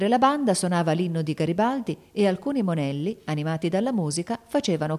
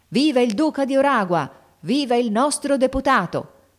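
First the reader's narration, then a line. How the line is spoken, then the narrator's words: Crowd shouting. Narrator (Italian): La folla gridava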